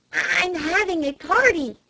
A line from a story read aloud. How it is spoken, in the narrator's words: hissed Flame through the keyhole